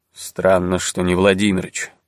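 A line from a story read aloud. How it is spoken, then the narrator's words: Muttered. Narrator (Russian): пробормотал Золотых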